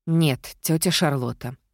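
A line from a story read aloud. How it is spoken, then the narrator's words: Sighed. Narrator (Russian): вздохнула я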